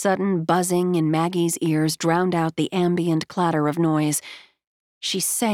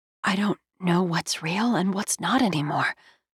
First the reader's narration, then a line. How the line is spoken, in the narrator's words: Maggie whispered